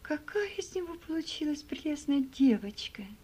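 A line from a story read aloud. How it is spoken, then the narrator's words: Exclaimed. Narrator (Russian): воскликнула Элиза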